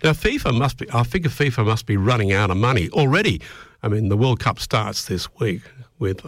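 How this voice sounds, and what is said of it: Hoarse voice from a cold. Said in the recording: “I think I'm kind of losing my voice. I've got a bit of a cold today”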